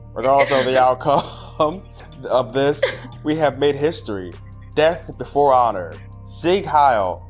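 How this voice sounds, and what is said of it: Deliberately bad put-on hick accent. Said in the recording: “I gotta do like a hick accent. Oh, this is gonna be awful. ... I'm really bad at accents.”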